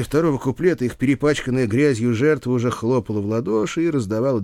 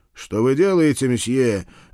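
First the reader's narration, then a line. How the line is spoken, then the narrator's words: Bark. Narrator (Russian): рявкнул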